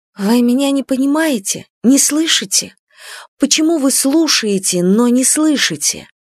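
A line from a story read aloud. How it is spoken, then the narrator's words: Quiet, disappointed. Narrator (Russian): Она говорила негромко и разочарованно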